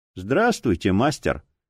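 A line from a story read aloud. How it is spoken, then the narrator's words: Respectful and cold. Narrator (Russian): почтительно и холодно ответил Бой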